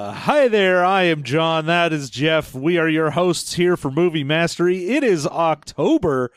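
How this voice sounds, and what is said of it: Usual voice. Nothing is said of it.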